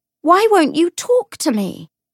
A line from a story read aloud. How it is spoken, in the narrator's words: she shouted